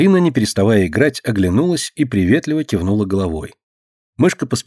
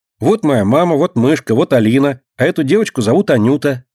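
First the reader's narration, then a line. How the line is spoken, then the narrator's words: Cheerful shouting. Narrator (Russian): весело кричала она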